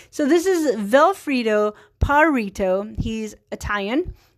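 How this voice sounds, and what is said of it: Put-on bad Italian accent. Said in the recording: “a horrible Italian accent”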